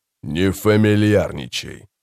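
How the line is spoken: Calm. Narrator (Russian): спокойно сказал Баральта

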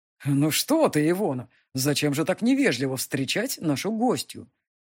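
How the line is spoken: Amused snort. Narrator (Russian): Солен, хмыкнув

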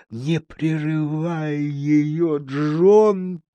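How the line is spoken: Mother whispering. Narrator (Russian): прошептала мама

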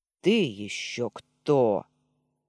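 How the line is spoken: Angry question. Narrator (Russian): зло спросил

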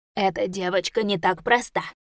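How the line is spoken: Hoarse rasp. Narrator (Russian): прохрипел тот

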